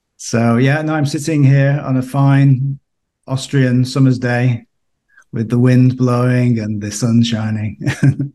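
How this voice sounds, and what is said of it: British accent. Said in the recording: “you may detect from my accent that I'm from the UK originally”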